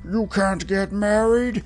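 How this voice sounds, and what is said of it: Scary character voice. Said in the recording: “said a scary voice”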